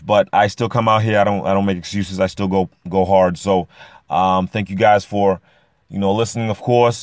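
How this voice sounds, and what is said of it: Rough, strained voice. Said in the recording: “Excuse my voice... I did a lot of yelling, so my voice is a little little rough”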